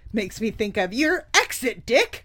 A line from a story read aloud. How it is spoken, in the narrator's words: Ronan snapped